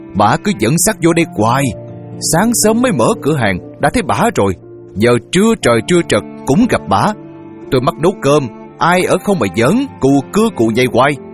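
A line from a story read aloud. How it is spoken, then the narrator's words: Woman shouting loudly. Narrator (Vietnamese): Bà chủ tiệm hét to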